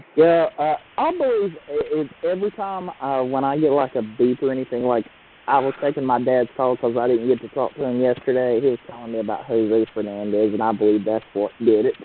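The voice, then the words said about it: Southern US accent. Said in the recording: “the Southern hillbilly accent”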